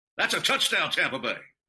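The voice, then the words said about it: Spot-on Gene Deckerhoff impression. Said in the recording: “Gene Deckerhoff, what a performance ... your impersonation of Mitch Holtis or Gene Deckerhoff, which have been spot on, especially the Deckerhoff.”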